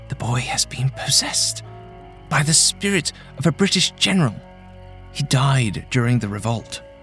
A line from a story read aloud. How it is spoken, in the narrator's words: she whispered